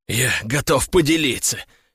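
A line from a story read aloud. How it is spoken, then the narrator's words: Hissing guard. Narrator (Russian): прошипел гвардеец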